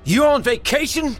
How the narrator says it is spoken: Dale yelled

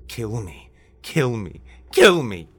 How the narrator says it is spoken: he cried out

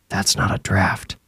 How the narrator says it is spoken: Percy whispered

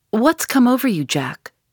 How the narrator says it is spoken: she cried

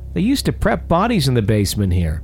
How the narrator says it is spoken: blurted out

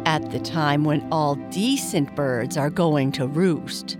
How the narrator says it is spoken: grumbled the bullfinch

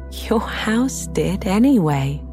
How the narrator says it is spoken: replied the little old woman with a laugh

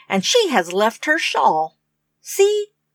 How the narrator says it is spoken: cried Rose, like the middle-sized bear

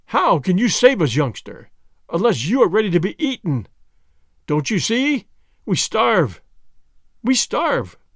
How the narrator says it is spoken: one of the men cried out crazily

